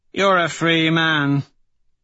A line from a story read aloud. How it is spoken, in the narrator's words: Severo slurs